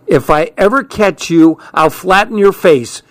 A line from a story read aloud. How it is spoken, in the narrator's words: hollered